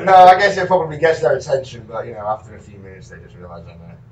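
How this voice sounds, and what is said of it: Speaks with a noticeable foreign accent. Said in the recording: “has that accent worked in your favor?”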